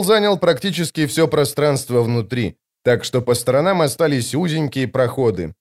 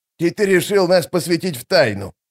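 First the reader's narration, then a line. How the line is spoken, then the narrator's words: Scornful snort. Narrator (Russian): фыркнул Штырь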